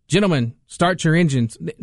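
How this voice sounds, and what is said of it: Flat, emotionless delivery. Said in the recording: “No feel, no passion.”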